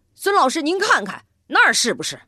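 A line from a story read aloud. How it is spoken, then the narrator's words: Loud shout. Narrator (Chinese): 李东明大声地喊道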